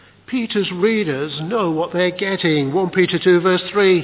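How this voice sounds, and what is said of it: Usual voice. Nothing is said of it.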